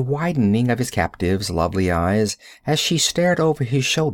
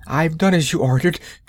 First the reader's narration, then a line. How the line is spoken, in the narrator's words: gasped hysterically